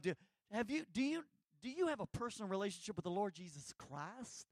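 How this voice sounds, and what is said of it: Put-on North Louisiana accent. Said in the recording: “You know how I say that in North Louisiana? ... Why why you use that accent?”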